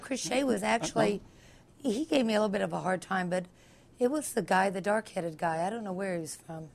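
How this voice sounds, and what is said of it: Hoarse, strained voice. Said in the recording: “Had a short night. I apologize for my voice. I've got laryngitis.”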